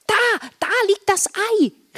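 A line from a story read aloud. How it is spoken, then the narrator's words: Excited call. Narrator (German): rief Marla aufgeregt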